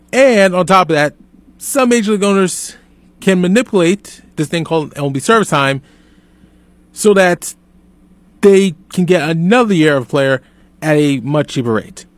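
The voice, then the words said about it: Raised, frustrated loud voice. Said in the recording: “If it sounds like I'm raising my voice, yes, I am definitely raising my voice because I am frustrated.”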